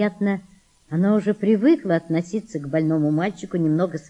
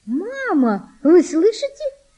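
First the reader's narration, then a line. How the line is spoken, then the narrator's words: Joyful high-pitched exclamation. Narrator (Russian): радостно, тонким голосом воскликнула Валентина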